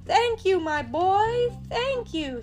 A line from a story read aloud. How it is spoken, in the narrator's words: he cried